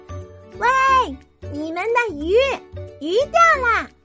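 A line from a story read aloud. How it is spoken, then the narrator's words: Loud shouting. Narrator (Chinese): 米拉……使劲喊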